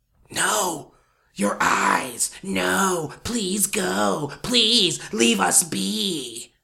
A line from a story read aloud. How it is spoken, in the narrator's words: it whispered